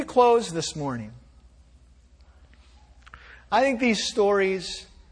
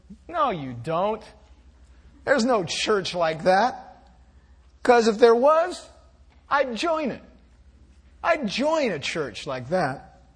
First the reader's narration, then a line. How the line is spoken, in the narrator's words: Harry almost sneered at me as he answered